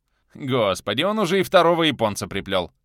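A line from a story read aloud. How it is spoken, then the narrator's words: Laughing. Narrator (Russian): рассмеялся Милич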